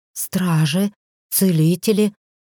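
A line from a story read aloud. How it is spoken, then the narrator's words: Breathless exhale. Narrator (Russian): Выдохнула я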